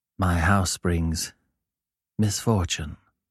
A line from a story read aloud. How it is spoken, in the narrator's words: he replied quietly